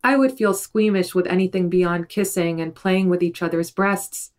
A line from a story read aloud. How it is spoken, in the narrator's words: she said